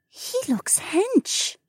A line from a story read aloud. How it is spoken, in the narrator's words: Becca whispered